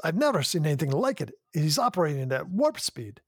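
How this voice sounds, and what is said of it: Scotty impression, Scottish accent. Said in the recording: “That accent was pretty good”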